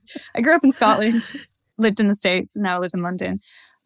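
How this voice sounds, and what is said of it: Mixed, hard-to-place accent. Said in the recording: “I've got this super messed up accent that all your listeners will be like, where's she from?”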